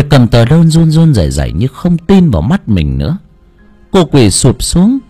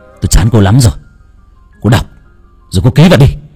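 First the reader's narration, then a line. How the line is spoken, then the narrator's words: Harsh, through teeth. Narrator (Vietnamese): Thanh gằn giọng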